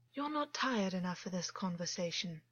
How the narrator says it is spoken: Augus said softly

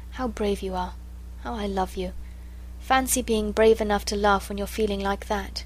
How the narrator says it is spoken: she whispered all to herself

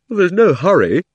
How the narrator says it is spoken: said Digory with a huge yawn

